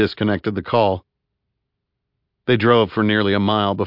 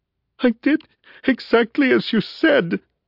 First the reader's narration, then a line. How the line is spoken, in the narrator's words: whimpered Lingmerth